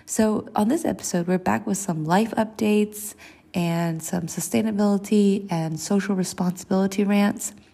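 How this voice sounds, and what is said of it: Congested, allergy-affected voice. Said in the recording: “I'm here with some severe spring allergies. If you can't hear it in my voice already on the episode, it's not so bad.”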